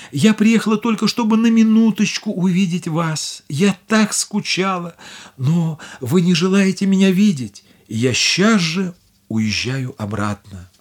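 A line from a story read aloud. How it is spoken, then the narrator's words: Tearful woman. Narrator (Russian): Бедная Дорагли сказала сквозь слезы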